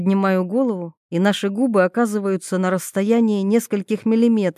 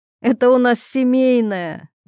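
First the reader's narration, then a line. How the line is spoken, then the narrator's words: Giggle. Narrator (Russian): хихикаю я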